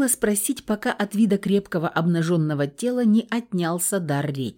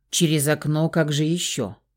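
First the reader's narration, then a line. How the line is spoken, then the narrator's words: Calm answer. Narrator (Russian): Спокойно ответил Фауст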